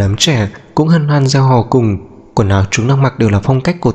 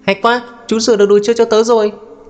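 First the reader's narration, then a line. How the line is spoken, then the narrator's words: Child's joyful shout. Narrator (Vietnamese): một cậu bé hét to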